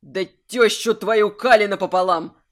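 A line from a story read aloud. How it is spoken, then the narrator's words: Growled sharp demand. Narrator (Russian): Прорычал он и резко потребовал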